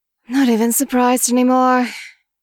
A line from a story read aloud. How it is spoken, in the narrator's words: Mian Mian mutters